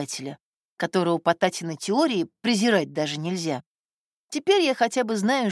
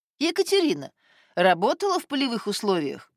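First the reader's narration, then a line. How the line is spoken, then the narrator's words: Cheerful question. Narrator (Russian): спросил весело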